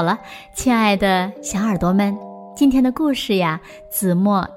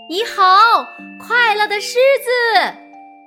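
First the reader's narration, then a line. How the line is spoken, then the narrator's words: Crowd shouting loudly. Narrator (Chinese): 站在阳台上和高高的窗台上的人们终于大声的喊起来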